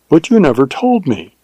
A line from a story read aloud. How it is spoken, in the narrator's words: she exclaimed with wonder and reproach